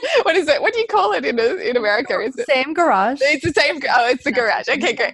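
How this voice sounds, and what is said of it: Australian accent. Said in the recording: “i love it, your accent”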